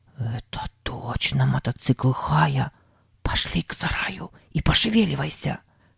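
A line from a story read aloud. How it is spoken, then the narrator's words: Whispered. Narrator (Russian): прошептал Сэм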